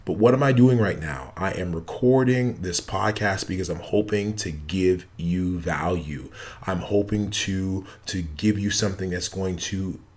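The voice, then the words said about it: Tired, worn late-night voice. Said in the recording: “I am tired... my voice is not the best”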